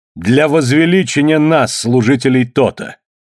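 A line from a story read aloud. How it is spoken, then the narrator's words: Loud, priest speaking. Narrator (Russian): громко сказал жрец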